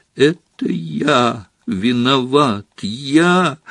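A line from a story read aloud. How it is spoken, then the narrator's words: Sobbing exclamation. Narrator (Russian): рыдая, воскликнул он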